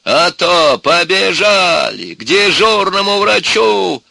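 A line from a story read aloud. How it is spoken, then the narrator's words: Shouting. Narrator (Russian): Она кричала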